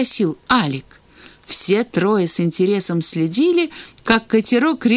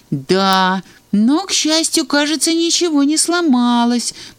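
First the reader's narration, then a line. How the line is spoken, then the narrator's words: Uncertain remark. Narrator (Russian): неуверенно заметил Санька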